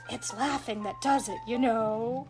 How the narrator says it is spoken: To the children he whispered

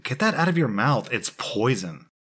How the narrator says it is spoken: calmly said

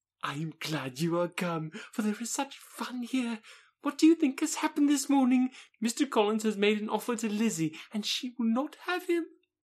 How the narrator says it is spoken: Lydia cried in a half-whisper

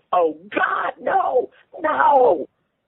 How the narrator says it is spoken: When Gus saw his miniature penis, he screamed

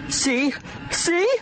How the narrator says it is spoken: the man with the gun squealed

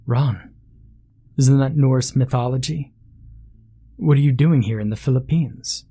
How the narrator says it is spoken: She chuckled

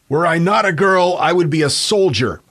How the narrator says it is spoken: at 18 years old, Margaret reportedly yelled at her brother

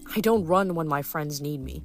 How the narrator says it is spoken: Percy had said

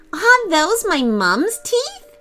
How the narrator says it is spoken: giggled

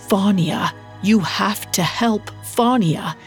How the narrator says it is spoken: croaked out

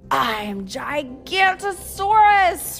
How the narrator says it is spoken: roared the dinosaur

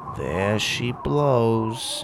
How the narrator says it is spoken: he mumbled

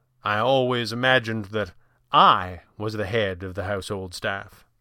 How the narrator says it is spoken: Fenwick said dryly

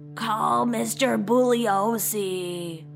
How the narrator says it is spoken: Before she passed out, she croaked

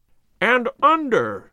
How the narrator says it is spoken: cried

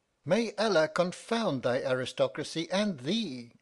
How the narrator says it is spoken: cried I

